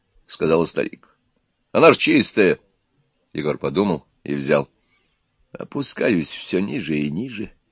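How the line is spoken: Grumbled to himself. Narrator (Russian): проворчал он про себя

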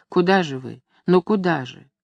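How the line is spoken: Quiet pleading woman. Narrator (Russian): Женщина негромко, умоляюще спрашивала

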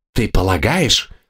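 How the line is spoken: Hiss. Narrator (Russian): прошипел Дермоген

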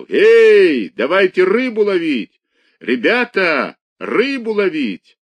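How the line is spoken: Shouting. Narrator (Russian): кричал

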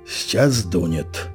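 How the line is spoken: Calm, to no one. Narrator (Russian): Федор спокойно, никому не обращаясь, сказал

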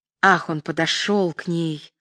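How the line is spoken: Whispered. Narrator (Russian): шепотом произнесла Лена

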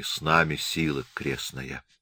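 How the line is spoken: Fearful whisper. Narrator (Russian): Поселяне шептали в страхе

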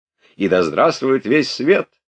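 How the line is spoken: Laughing shout. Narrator (Russian): Ростов смеясь закричал

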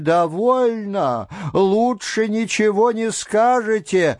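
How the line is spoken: Shouting. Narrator (Russian): Даже иные из дам кричали

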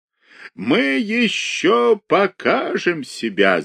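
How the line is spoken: Laughing. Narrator (Russian): захохотал Михаил Аверьяныч

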